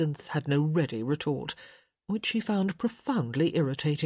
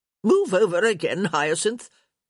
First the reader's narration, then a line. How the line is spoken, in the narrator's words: Lady Dee barked